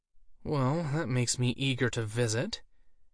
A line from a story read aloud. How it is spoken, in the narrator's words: she muttered under her breath